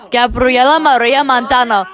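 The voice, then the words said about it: Put-on Spanish accent. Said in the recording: “I like how I say that in, like, my Spanish accent”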